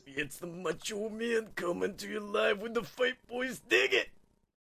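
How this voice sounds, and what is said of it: Macho Man impression. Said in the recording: “best Macho Man impression”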